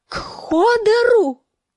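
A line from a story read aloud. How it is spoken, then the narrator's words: Screaming. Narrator (Russian): завопила Санса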